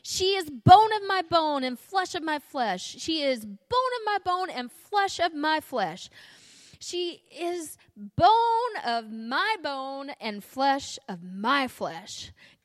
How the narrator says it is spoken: yelling

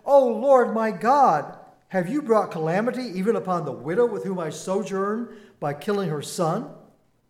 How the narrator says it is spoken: Elijah cried to the Lord

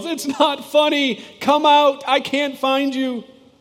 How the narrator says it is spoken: in tears, he yells

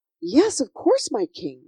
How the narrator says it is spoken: replied Sophie eagerly

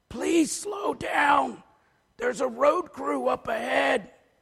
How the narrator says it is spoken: whispers, his throat feeling worse

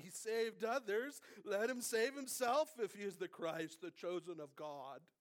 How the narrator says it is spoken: the rulers with him sneered, saying

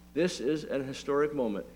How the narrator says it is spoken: he said

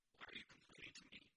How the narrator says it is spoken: Moses replied

